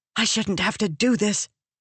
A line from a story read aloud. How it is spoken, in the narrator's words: Venli hissed at him